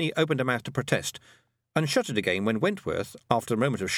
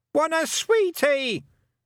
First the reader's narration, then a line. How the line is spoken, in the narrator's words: shouted Wentworth on automatic sweetie pilot